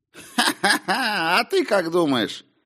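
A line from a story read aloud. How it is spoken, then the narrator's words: Short laugh. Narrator (Russian): хохотнул Том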